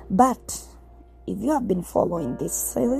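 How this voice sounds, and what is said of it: Usual voice. Nothing is said of it.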